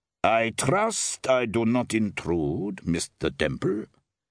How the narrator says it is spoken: a voice with a Teutonic accent rasped

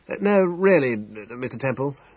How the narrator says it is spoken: exclaimed Dr

